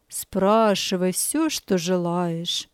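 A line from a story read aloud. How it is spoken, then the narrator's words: Gentle, kind. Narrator (Russian): Пастор ласково сказал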